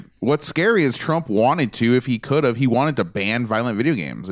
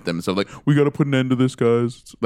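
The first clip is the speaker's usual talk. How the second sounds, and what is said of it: Poor Donald Trump impression. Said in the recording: “terrible Trump impression”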